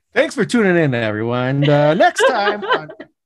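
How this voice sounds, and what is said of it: Big radio announcer voice. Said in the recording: “big radio voice”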